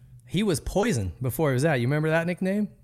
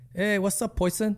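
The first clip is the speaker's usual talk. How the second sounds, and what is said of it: Put-on Costa Rican accent. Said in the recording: “in his like Costa Rican accent”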